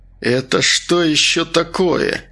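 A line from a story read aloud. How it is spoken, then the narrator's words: Angry question. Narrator (Russian): спросил он таким злобным голосом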